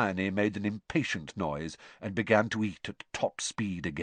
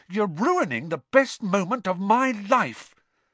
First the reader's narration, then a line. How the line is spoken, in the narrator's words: said Ron furiously